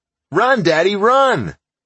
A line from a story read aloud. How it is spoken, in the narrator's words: Little Bit shouted